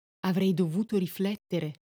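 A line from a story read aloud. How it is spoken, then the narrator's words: Quiet female question. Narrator (Italian): ella domandò sottovoce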